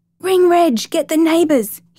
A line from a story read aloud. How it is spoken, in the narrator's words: he shouted